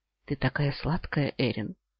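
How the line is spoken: Tender, longing whisper. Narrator (Russian): прошептал, испытывая настойчивое желание повторить поцелуй

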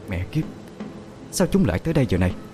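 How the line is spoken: Pale, uneasy muttering. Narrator (Vietnamese): Gương mặt ả tái đi vài phần, ả lẩm bẩm

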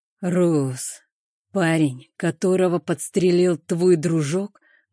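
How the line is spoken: Muffled voice. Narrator (Russian): Голос Хана звучал глухо

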